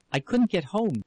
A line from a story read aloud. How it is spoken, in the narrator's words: she exclaimed